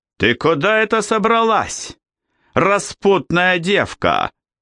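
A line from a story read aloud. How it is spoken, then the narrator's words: Loud public shout. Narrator (Russian): закричал он так, чтобы услышали все до единого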